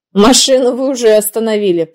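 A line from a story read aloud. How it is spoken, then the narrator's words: Grumbling mutter. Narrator (Russian): пробурчал в ответ Гена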